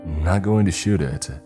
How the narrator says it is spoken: mocked calmly

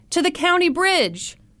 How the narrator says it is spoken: someone shouted

